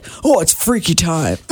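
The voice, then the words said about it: Imitates a sports radio announcer. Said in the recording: “that was a great impersonation”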